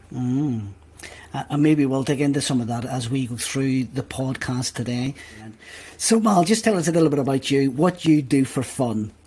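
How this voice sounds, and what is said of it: Belfast accent. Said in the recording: “that accent you have. Yeah. Beautiful Belfast accent.”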